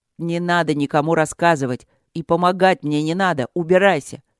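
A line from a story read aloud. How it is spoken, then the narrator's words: Angry bark. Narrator (Russian): Рявкнул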